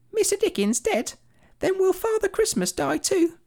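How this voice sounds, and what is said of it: Imitating a young London girl. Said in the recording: “my impression of a young girl in London in 1870”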